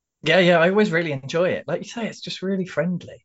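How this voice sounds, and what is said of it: London accent. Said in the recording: “my London accent”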